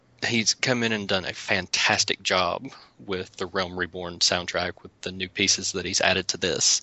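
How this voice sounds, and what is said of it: Southern American accent. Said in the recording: “me and my southern accent”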